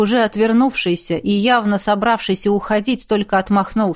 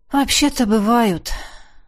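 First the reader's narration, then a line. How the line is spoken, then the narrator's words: Sighing. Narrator (Russian): вздохнул я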